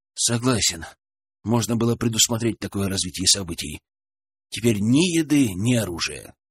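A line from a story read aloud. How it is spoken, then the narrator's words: Sighed. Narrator (Russian): вздохнул Денис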